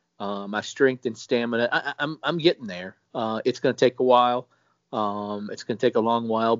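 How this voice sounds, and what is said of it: Weakened voice, not fully recovered. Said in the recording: “my voice isn't all the way back”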